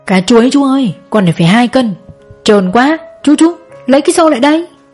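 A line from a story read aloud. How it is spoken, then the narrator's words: Loud shouting. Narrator (Vietnamese): Nam hét toáng lên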